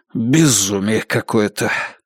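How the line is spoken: Displeased mutter. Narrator (Russian): недовольно пробормотал Баннерман

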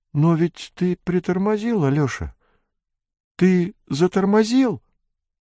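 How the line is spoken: Frightened question. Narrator (Russian): Михаил Антонович вдруг испуганно посмотрел на Быкова и спросил

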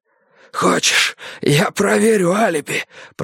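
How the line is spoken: Hoarse wheeze. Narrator (Russian): просипел он

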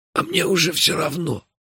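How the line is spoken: Barely audible whisper. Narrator (Russian): едва слышно прошептал Мелифара

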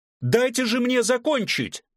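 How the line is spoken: Shouting out. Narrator (Russian): выкрикнул ректор

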